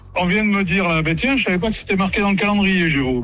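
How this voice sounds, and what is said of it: Slight regional French accent from Cantal. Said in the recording (French): “Vous avez un peu d'accent, non? Vous avez un petit accent? ... Ah ben ouais, parce que je suis du Cantal, moi.”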